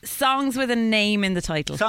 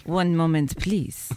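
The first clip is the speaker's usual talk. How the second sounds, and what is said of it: Put-on French accent. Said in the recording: “since I have French heritage, I've my accent is very natural now”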